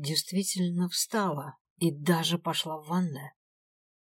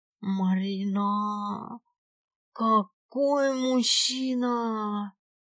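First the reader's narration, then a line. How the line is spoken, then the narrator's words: Blissful moan. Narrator (Russian): Блаженно простонала Аленка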